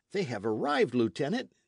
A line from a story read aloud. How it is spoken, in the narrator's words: exclaimed a young midshipman